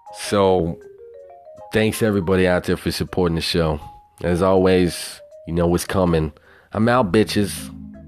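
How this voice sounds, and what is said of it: Southern twang. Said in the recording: “that motherfucker with the $1 million voice ... that hobo with his southern twang”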